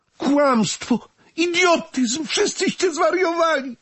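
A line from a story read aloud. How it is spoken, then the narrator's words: Hysterical scream. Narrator (Polish): krzyknęła histerycznie Renata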